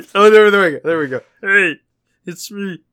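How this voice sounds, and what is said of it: Kermit the Frog character voice. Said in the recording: “Kermit the Frog”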